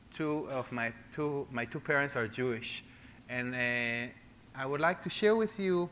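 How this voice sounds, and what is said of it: Israeli accent. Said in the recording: “I cannot hide my own accent ... As you can hear, I'm uh, from Israel, from Jerusalem”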